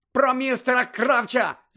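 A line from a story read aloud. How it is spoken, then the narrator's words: Shout. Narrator (Ukrainian): закричав Гаррі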